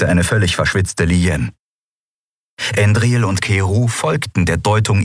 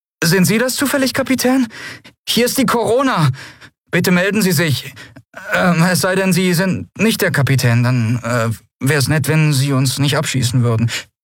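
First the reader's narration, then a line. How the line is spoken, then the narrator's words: Nervous question. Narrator (German): eine nervöse Stimme fragte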